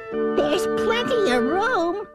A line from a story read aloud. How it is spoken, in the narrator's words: laughed the bug